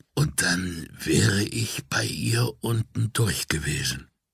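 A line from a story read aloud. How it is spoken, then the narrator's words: Coughing, then whispering. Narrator (German): hustete erst einmal und flüsterte dann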